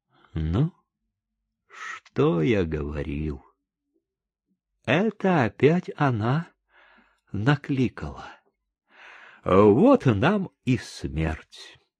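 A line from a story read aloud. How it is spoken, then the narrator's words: Quiet, doomed voice. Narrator (Russian): Чика тихо и, главное, каким-то обреченным голосом сказал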